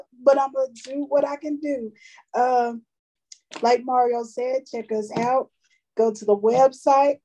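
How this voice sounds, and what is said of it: Weak voice cutting in and out. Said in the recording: “My voice is kind of in and out”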